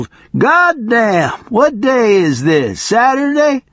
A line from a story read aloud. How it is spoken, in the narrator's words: A bony, middle-aged hoodlum yelled